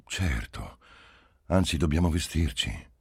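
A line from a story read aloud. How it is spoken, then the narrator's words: Said with a sigh. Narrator (Italian): egli disse con un sospiro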